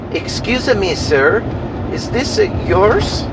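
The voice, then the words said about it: Poor imitation of thick French accent. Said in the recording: “in a very thick French accent... that was a horrible French accent.”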